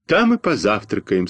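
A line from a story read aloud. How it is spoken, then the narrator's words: Sad. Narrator (Russian): сказал грустно Костя Малинин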